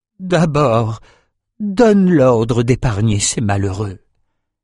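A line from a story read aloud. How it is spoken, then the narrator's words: Moaning. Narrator (French): gémit Ren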